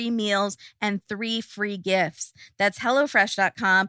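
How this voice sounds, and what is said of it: Usual voice. Nothing is said of it.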